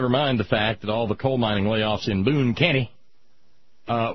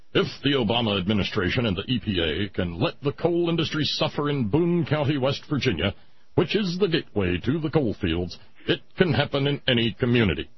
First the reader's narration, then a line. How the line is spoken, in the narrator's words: Todd Starnes, roving Fox News reporter in his stentorian Starnes voice, said